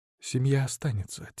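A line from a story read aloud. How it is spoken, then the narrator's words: Quiet. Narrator (Russian): тихо сказала она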